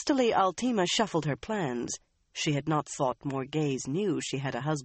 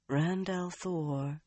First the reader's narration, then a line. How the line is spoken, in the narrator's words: Morgaze mused softly